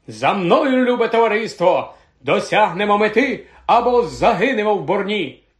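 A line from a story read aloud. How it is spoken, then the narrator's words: Exclaimed. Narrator (Ukrainian): нарешті вигукнув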